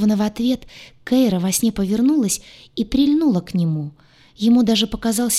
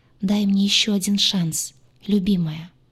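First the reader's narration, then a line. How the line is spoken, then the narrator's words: Whisper. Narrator (Russian): шепча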